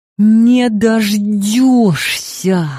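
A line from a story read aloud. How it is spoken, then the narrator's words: Angry hiss. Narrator (Russian): зашипела я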